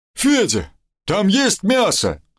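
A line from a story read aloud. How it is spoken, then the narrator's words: Worried shout. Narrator (Russian): озабоченно крикнул мне Мишка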